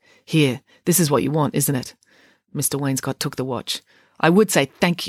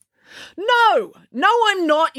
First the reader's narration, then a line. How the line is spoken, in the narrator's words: yelled Ian, swiveling to turn his fury on Friday